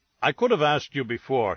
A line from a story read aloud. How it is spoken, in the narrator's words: he said